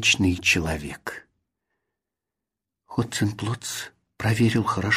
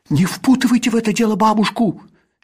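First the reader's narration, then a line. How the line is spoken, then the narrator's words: Indignant shout. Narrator (Russian): с негодованием крикнул Касперль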